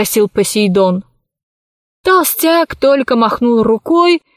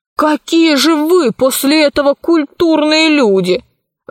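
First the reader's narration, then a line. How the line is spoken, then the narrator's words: Exclaimed. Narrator (Russian): воскликнул Пашка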